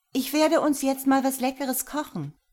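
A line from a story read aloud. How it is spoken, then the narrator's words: Called out. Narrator (German): rief mir auf dem Weg in die Küche zu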